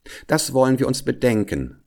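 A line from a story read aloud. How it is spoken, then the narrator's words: Plain. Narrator (German): sagte die Frau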